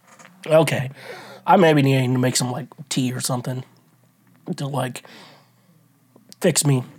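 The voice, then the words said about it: Voice sounds weird, horrible. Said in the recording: “I sound horrible right now ... I was coughing ... But now my voice sounds weird”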